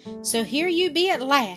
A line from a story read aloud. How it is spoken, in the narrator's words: she exclaimed